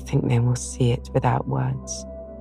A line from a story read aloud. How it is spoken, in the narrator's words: sighed Jo, for now it seemed to her that Beth changed every day